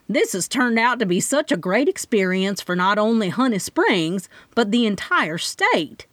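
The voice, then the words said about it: Long southern drawl. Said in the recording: “in her long southern drawl”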